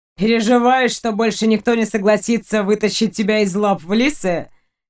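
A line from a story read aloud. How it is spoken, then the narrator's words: Mocking chuckle. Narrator (Russian): Хохотнул студент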